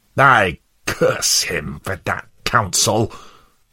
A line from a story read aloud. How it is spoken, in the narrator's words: snarled Worldly Wise Man